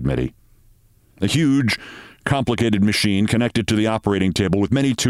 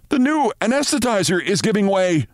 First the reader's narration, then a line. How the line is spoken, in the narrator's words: shouted an intern